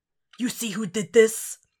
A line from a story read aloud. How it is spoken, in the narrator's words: He rasps against the speaker